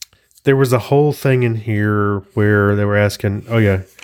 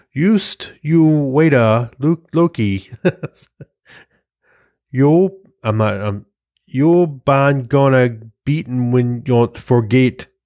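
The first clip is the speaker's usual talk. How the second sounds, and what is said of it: Terrible put-on Swedish accent, Thor. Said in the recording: “what if Thor had a Swedish accent? ... That's a terrible Swedish accent.”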